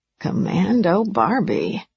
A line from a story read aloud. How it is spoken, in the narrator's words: one of the women muttered